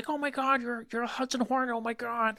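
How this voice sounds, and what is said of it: Good impression of another person's voice. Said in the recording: “That's a shockingly good Owen Wilson impression. ... He's got a very mimicable voice.”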